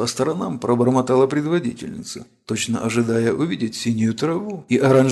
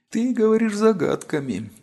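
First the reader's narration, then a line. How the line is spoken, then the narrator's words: Weary sigh. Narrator (Russian): устало вздохнула Ариата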